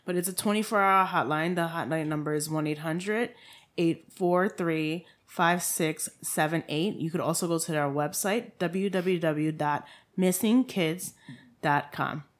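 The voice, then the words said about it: TV shopping-channel announcer voice. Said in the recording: “Put on your QVC voice.”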